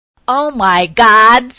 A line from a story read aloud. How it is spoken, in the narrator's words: screamed